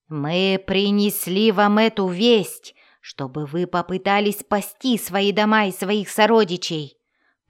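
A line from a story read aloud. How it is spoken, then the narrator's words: Roared. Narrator (Russian): проревел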